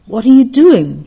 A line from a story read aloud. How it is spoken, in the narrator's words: cried the layman